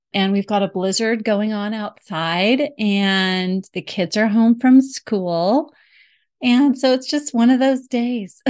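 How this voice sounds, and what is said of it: Slightly sore, strained voice. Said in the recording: “I have a little bit of a sore throat ... I'm hoping my voice holds out”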